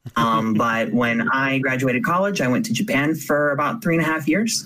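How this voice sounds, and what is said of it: American accent. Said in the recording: “In case my accent didn't give it away, I'm an American.”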